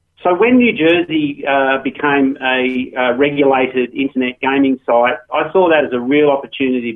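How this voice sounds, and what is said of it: Australian accent. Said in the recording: “as you might tell from my accent. I started off in Australia”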